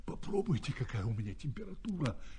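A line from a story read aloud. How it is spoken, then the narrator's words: Hoarse whisper in ear. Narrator (Russian): хрипит на ухо автору главный герой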